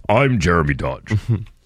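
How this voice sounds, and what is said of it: Very deep imitated news anchor voice. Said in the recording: “Very deep voice.”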